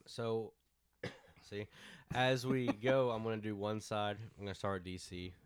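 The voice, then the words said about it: Weak, sick-sounding voice. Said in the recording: “if I talk weird, I'm coming off of something. So my voice is kind of going ... Sound sick.”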